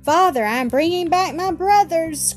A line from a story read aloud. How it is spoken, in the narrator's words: cried Ernest